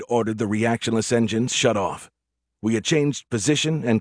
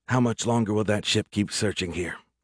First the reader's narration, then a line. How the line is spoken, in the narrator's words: Reed asked quietly